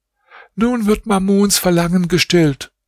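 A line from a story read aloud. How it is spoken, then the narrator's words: Called out. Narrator (German): rief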